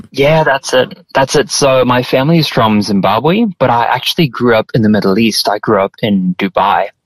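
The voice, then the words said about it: Speaks with a noticeable foreign accent. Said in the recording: “we know that you've got an accent there”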